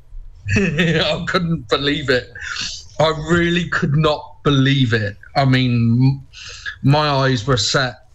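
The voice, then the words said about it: Southwest English accent. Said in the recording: “I love that southwest accent”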